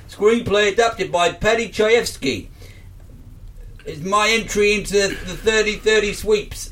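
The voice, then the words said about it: Put-on accent that falls apart. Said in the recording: “My accent just fell apart there.”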